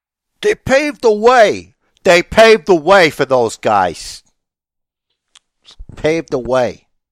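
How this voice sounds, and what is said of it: Put-on unspecified accent. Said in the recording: “What's that accent?”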